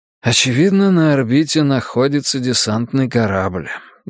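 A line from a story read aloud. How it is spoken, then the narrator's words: Sighing. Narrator (Russian): я вздохнул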